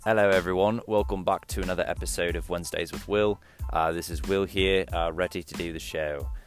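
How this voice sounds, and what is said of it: Mixed British, Australian, Irish accent. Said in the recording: “I don't really know what accent this is. I think it is a mix of probably some British and Australian and some Irish and all sorts of things.”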